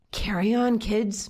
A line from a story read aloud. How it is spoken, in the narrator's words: Miss Flowers whispered